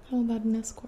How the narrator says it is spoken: said

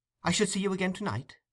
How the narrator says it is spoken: said the young man eagerly

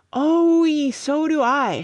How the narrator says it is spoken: shouted Budge

